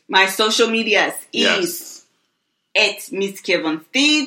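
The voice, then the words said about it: Put-on Russian accent. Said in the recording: “stop the Russian accent, please.”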